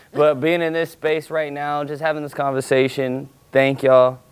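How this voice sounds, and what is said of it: Loud, yelling delivery. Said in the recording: “sorry for yelling”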